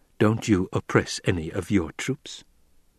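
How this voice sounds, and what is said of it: Mild, gentle voice. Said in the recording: “Hawat spoke in a mild voice.”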